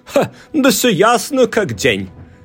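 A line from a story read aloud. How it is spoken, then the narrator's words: Exclamation. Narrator (Russian): воскликнул Сквайр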